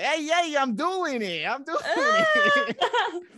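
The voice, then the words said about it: Put-on thick Brooklyn accent. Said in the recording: “a ridiculous caricature of just like a New York kid ... he has the thick Brooklyn accent”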